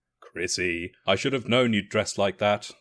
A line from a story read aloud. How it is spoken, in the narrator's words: he continued to chuckle